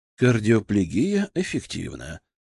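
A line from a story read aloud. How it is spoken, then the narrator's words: Quiet report. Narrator (Russian): доложил негромко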